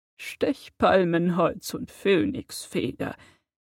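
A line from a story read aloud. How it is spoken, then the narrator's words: Old man's trembling voice. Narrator (German): antwortete der alte Zauberstabmacher mit zittriger Stimme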